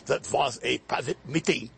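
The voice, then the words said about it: German-accented Kissinger impression. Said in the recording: “have to affect the German accent”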